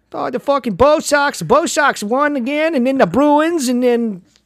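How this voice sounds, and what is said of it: Mock Boston accent. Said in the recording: “people with that accent ... I can hear it now”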